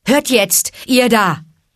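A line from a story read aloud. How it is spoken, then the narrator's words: Call. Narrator (German): rief er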